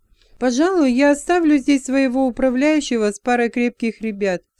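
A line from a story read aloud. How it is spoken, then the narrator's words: Plain. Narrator (Russian): сказал он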